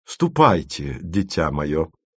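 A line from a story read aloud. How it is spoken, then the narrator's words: Weighty, solemn voice. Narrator (Russian): молвила мадам Бонатар значительным голосом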